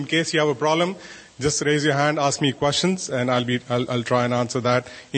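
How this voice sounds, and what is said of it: Indian English accent. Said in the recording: “I've got a terrible Indian accent”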